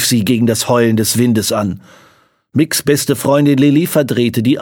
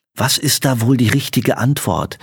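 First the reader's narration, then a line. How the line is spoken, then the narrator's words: Very quiet. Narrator (German): sagte sie so leise, dass nur Mick es hören konnte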